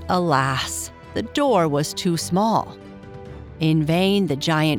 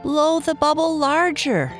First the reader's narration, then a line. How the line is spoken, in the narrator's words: shouted Ned